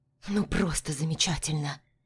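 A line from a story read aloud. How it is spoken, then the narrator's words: Grumbling. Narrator (Russian): Пробурчала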